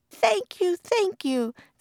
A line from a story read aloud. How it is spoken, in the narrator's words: the mother cried